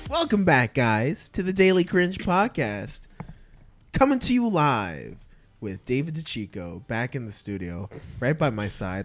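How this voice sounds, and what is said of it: Announcer-style radio voice. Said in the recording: “Like a radio voice.”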